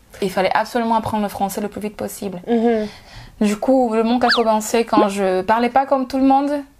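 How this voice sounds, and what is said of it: African-accented French. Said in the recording (French): “J'avais mon accent, que j'ai toujours.”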